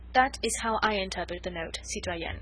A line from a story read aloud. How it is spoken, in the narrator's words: concluded Chauvelin blandly